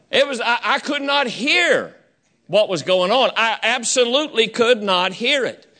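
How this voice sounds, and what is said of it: Southern American accent. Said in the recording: “I got my Southern accent from my heritage.”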